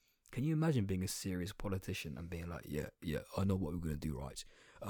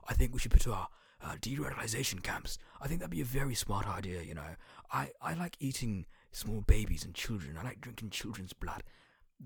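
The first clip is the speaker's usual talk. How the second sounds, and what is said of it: Imitates a Tory politician's voice. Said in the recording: “my Tory impression”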